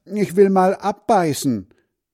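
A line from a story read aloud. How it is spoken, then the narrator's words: Calling out. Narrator (German): ruft Hans Frieder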